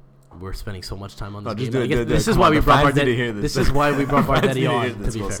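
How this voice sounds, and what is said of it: Usual voice. Nothing is said of it.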